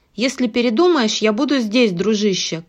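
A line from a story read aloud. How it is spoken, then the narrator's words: Called after. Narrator (Russian): крикнул ему вслед Спамли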